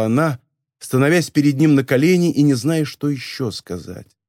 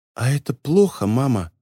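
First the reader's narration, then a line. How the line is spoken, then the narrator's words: Barely audible whisper. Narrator (Russian): спросил едва слышным шепотом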